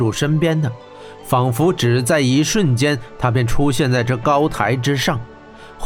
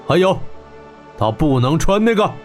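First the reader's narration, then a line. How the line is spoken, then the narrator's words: General shouting. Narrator (Chinese): 铁虎将军大喊道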